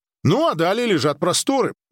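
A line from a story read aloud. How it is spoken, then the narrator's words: Brisk, hurried cheerfulness. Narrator (Russian): бодро, будто пытаясь поскорее закончить разговор о пустошах, сказал Ли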